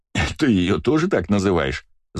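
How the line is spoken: Laughing. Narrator (Russian): засмеялся я

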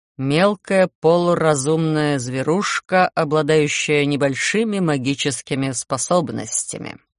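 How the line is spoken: Bored lecturing tone. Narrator (Russian): скучным лекторским тоном сообщил из моей спины Гарон

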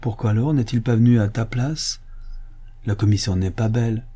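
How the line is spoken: Softened tone. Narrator (French): Elle dit d'un ton radouci

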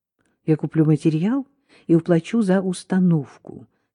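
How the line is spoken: Calm. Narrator (Russian): спокойно сказал Гарри

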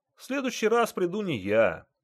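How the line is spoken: Joyful announcement. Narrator (Russian): радостно сообщил пассажир

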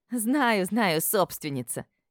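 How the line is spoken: Cheerful laughing. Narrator (Russian): весело рассмеялась Табита

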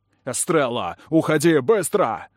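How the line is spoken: Roared. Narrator (Russian): Взревел Кэллум

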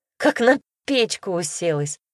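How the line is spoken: Laughing. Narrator (Russian): засмеялась она

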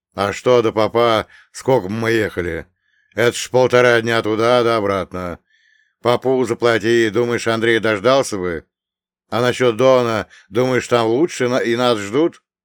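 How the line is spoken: Angry male scoff. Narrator (Russian): Зло хмыкнул мужчина

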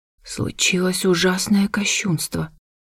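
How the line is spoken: Gloomy whispered reply. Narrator (Russian): мрачно прошептала в ответ

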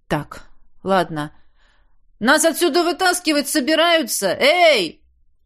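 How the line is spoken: Loud bark. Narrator (Russian): Гаркнул я, не особенно беспокоясь насчет эха

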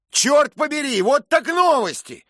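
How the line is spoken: Shouted. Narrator (Russian): крикнул он

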